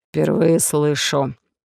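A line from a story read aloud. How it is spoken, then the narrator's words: Hoarse, joyless. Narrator (Russian): прохрипел Олаф, и в его голосе я не расслышал особой радости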